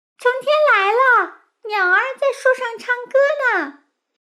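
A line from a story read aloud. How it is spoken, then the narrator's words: Screaming. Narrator (Chinese): 奥菲尖叫起来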